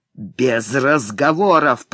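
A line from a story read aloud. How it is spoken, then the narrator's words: Growled. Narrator (Russian): прорычал Блэксерн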